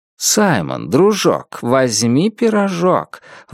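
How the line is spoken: Exclaiming. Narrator (Russian): воскликнул пирожник

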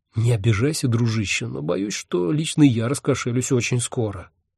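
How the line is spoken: Whispered. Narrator (Russian): шепнул я Хехельфу

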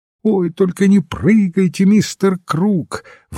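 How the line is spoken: Alarmed girl exclaiming. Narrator (Russian): воскликнула девушка в тревоге

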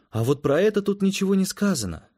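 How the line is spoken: Confused. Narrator (Russian): растерянно сказала Эллен

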